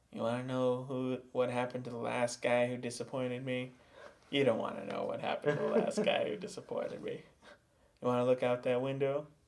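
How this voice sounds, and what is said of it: Mafia gangster character voice. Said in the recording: “are you going to do a mafia voice? ... I don't recall if it was like straight gangster or mafia.”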